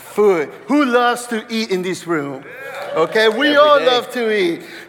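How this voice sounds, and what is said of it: Hispanic Mexican accent. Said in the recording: “by my accent, you already know that I'm either Hispanic, which I am 100% Mexican”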